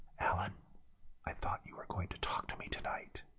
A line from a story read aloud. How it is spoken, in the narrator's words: Amra whispered